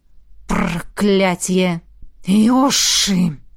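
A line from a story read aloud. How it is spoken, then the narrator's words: Hissing. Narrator (Russian): Прошипел Аллегра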